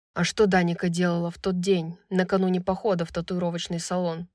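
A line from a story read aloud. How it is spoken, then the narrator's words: Calm question. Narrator (Russian): Вопрос был задан спокойным тоном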